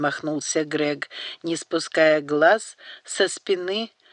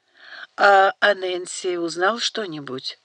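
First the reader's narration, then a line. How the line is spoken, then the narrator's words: Muffled mutter. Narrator (Russian): глухо пробормотал Даниэль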